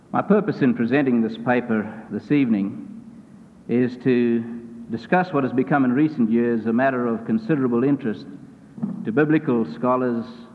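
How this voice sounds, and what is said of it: Speaks with an accent. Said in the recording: “you can always blame that on my accent, sort of feel that I didn't say the word quite like it should be”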